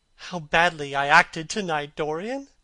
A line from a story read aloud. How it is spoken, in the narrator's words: she cried